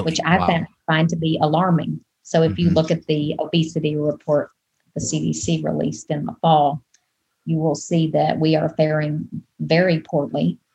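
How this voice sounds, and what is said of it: Southern US accent. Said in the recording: “you can probably tell from my accent that I'm not from here. I'm originally from the Deep South, from Arkansas.”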